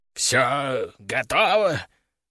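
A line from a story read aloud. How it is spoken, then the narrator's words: Weak hoarse wheeze. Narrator (Russian): прохрипел он слабым голосом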